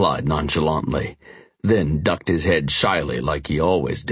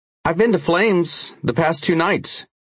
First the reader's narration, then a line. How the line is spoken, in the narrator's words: he eventually said